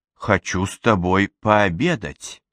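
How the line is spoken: Calm reply. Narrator (Russian): спокойно отозвалась Мэдисон

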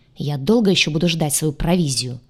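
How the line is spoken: Furious impatient bark. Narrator (Russian): рявкнул Дайсан, яростно сверкнув глазами, теряя терпение

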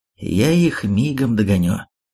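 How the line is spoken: Strangely calm voice. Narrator (Russian): Робин … каким-то странным спокойным голосом заявил

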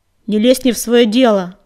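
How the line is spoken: Barking. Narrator (Russian): рявкнул на него Огнегриф

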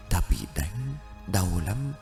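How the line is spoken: Faint dazed murmur. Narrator (Vietnamese): Cô ta miệng khẽ mấp máy

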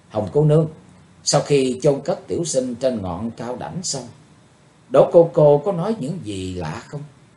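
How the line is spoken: Sighing question. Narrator (Vietnamese): Chàng buông tiếng thở dài rồi hỏi Hồng Y Nữ Sảo Nhi

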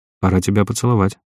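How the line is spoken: Strained flat unnatural voice. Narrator (Russian): произнес каким-то не своим, зажатым, невыразительным голосом

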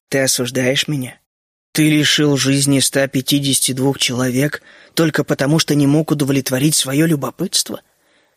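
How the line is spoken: Strained, barely controlled calm. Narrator (Russian): Генри старался говорить очень спокойно, но ему это плохо удавалось

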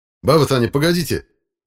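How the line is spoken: Shouted. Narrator (Russian): крикнул я

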